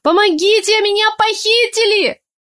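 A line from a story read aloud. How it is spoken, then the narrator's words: Full-throated scream. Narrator (Russian): Во все горло заорала я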